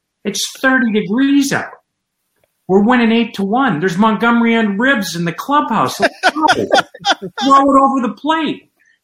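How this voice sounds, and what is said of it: Lou Piniella impression. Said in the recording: “great Lou Piniella impersonation ... He just stutters a lot”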